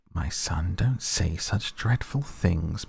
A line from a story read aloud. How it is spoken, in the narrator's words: murmured Mrs